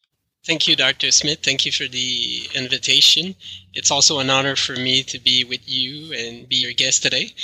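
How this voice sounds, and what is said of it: French Canadian accent. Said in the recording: “my French Canadian accent”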